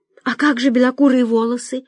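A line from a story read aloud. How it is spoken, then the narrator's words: Timid question. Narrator (Russian): робко спросила Соня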